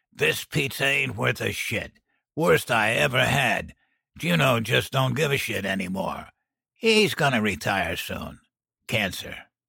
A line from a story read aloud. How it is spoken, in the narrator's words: grumbled